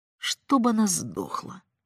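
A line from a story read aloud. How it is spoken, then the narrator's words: Muttering boy. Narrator (Russian): бормотал мальчик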